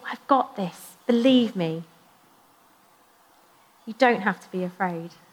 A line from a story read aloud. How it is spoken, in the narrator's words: Jesus just calmly ... just saying